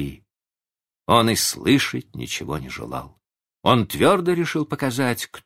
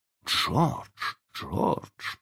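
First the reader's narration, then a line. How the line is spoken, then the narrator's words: Whisper. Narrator (Russian): прошептала миссис Дарлинг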